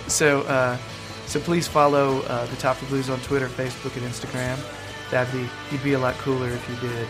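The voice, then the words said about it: Deliberately smooth, soft announcer voice. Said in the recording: “do a nice smooth voice. I'm not trying to be as grating as normal”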